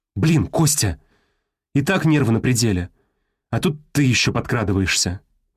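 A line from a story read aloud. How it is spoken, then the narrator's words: Exasperated, breathless outburst. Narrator (Russian): выдохнула техник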